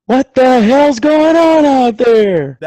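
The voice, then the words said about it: Vince Lombardi impression. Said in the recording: “your best Vince Lombardi impersonation”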